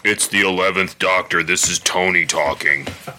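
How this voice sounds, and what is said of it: Imitates another person's voice. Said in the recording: “best Tony impression”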